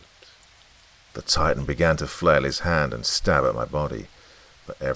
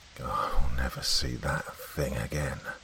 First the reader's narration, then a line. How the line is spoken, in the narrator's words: I muttered